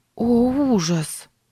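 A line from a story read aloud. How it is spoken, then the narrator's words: Horrified breathless gasp. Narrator (Russian): выдохнула Сара в ужасе от услышанного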